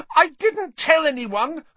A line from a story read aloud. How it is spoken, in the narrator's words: Hermione shrieked